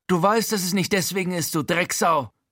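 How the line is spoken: Hissing insult. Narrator (German): zischt Frankie

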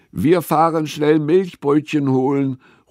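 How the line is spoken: Calling across a distance. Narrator (German): ruft Frieda zu Gustavs Hütte rüber

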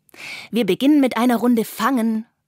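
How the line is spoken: Calling out. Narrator (German): ruft Carla

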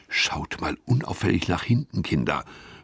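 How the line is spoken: Whisper. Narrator (German): flüstert Gustav

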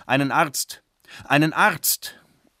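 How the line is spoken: Old man calling repeatedly. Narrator (German): ein alter Mann rief pausenlos

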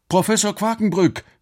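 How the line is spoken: Calling. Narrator (German): rief Alex

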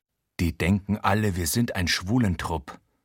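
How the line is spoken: Murmured. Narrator (German): raunt Achim in altersgemäßem Vokabular

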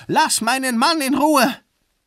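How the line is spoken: Shouting woman. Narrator (German): Sie schrie

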